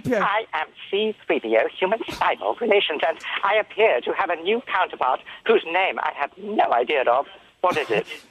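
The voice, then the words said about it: Imitates the C-3PO droid voice. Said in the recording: “Get Anthony to do the voice. ... Do the voice! Do the voice! ... Yeah, do 3PO.”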